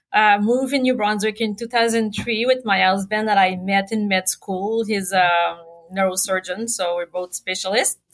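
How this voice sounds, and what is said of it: Quebec French-Canadian accent. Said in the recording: “I'm from Quebec. So why my beautiful accent that I can lose? ... It's a gorgeous accent.”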